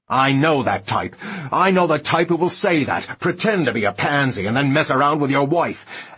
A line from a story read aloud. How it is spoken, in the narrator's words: and continued to shout and rampage